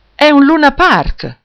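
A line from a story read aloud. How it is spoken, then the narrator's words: Astonished exclamation. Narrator (Italian): esclamò Arianna sbalordita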